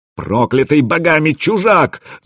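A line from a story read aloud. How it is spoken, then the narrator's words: Yelled. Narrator (Russian): завопил Расмус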